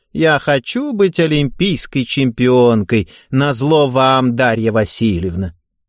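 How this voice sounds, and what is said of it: Mocking grimacing imitation of Eva. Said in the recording (Russian): “кривляясь, передразнивала Еву”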